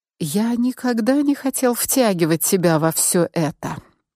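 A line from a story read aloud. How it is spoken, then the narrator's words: Whispered in ear. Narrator (Russian): прошептал Мик мне на ухо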